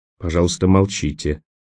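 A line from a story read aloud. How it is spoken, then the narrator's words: Quiet command. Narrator (Russian): тихо велел Хамед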